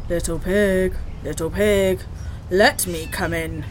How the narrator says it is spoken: he growled

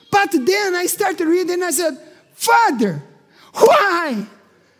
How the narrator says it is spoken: I cried

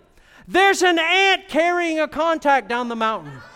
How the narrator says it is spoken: continued yelling

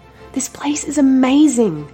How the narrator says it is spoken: they cried

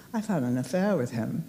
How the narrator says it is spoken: I said quietly

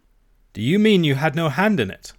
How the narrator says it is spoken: cried I

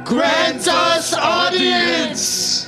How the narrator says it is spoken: Linda screams in pain

